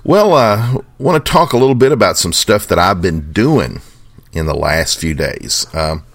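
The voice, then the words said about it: Kentucky accent. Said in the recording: “my Kentucky accent ... how we talk out here”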